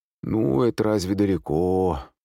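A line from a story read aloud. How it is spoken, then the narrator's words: Sleepy, spiteful drawl. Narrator (Russian): протянул сонный мужчина, все с той же злобой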